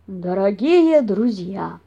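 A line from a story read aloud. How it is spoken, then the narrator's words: Solemn. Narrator (Russian): торжественно начал папаша Бамсе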